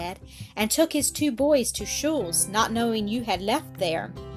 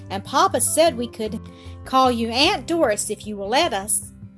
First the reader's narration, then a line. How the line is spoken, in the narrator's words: cried Otto joyously